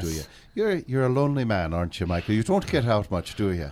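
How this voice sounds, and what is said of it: Put-on Irish leprechaun accent. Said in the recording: “I really liked your leprechaun accent. Can you give us anything more?”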